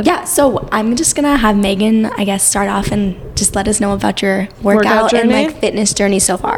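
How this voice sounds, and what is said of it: Raspy, cracking sick voice. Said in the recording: “I have a little illness ... I sound like a man or Adele ... I sounded like Adele for a second ... I have a little bit of a ... raspy ... Or I sound sometimes like a 16-year-old boy like going through puberty ... The voice crack ... my voice is cracking”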